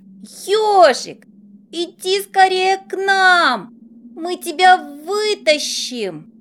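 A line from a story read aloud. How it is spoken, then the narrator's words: Familiar voice shouting. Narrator (Russian): Кричал чей-то знакомый голос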